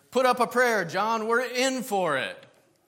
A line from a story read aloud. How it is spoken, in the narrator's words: Terrified, the one shouted to the other